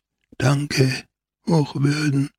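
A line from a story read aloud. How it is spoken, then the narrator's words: Whisper. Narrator (German): flüsterte er zum Priesterlein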